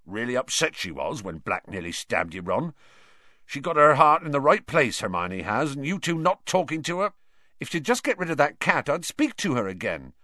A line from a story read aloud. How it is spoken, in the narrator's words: Ron said angrily